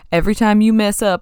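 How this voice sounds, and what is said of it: Put-on Southern US accent. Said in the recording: “I shouldn't have done that with a southern accent.”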